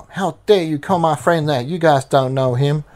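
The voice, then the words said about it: Put-on Southern accent. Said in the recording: “I made it sound southern”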